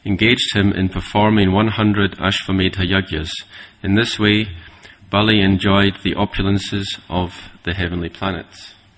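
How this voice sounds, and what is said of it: Northern accent. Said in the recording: “With a good northern accent, too.”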